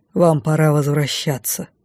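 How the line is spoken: Tired, smiling. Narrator (Russian): устало улыбнулся лордер Ирс

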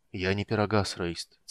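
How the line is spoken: Quiet. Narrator (Russian): тихо сказал Карамон

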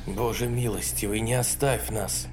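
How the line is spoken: Terrified whisper. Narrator (Russian): в ужасе прошептал Уильямс

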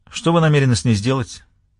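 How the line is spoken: Laughter abruptly cut off. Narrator (Russian): спросил он, резко оборвав свой болезненный смех

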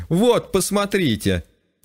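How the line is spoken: Laughing to tears. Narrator (Russian): Продолжала смеяться до слез доктор Ча

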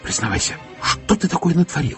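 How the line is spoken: Whisper through door window. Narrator (Russian): зашептала в дверное окошко

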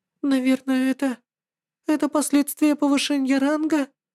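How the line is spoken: Uncertain reply. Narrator (Russian): неуверенно ответила демоница

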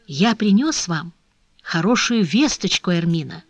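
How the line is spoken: Whispered. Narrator (Russian): шептал ей в это время Фернан

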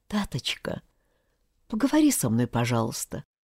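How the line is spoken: Quiet pleading. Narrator (Russian): тихо просила Люда

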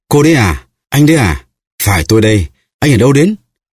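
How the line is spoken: Two voices exclaiming joyfully. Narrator (Vietnamese): Hai người cùng reo lên

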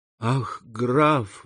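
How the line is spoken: Tearful exclamation. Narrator (Russian): воскликнула девушка, заливаясь слезами

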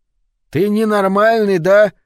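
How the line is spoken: Yelling again. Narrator (Russian): снова завопил Лучи, на лице которого выступили капли пота

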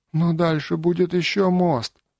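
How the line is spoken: Whining. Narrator (Russian): заскулил

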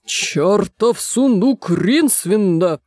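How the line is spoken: Eccentric man growling. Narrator (Russian): прорычал чудак Улли

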